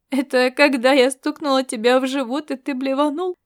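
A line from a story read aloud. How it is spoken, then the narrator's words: Mocking question, young woman. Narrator (Russian): насмешливо осведомилась девушка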